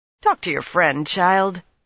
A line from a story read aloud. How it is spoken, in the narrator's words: the Annan woman told Nynaeve impatiently